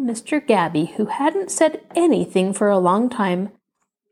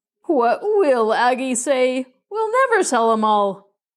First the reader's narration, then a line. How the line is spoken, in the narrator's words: Uncle Ulysses groaned and said